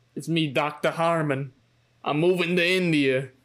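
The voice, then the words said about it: Thick put-on New York accent. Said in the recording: “having like a really thick New York accent.”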